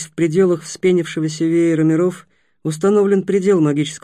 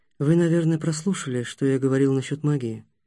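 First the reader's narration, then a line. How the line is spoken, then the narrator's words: Soft. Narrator (Russian): мягко произнес Такеда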